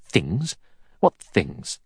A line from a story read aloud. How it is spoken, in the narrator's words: Armstrong said sharply